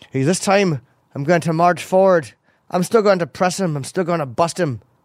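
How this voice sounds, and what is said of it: Poorly imitated accent of another person. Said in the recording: “That's the terrible accent,”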